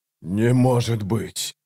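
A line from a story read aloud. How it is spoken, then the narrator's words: Breathed out. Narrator (Russian): выдохнул Ягут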